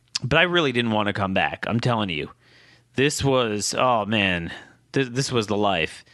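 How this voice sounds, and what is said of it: Hoarse, strained voice. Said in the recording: “I am on the cusp of losing my voice again. My throat is killing me”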